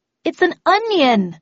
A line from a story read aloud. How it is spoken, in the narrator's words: said in a loud voice